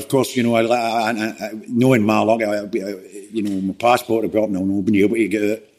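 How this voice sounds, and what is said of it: Scottish accent. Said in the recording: “The only thing Scottish about is my accent.”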